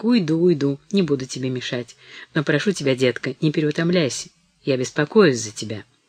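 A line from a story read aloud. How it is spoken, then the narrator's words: Soft. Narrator (Russian): сказала мягко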